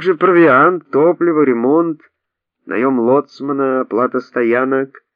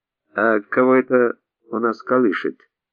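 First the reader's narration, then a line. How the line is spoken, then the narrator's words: Gruff mutter. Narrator (Russian): буркнул Арон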